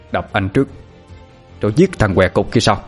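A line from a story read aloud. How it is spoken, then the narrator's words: Harsh gritted voice. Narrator (Vietnamese): gằn giọng nói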